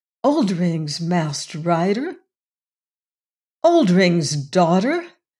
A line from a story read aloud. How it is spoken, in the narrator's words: exclaimed Jane